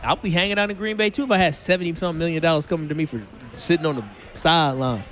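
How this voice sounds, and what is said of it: Put-on Southern accent. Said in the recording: “Pretty good Southern accent, right? ... It was okay. ... It had good moments. Tapered off at points. ... It was solid.”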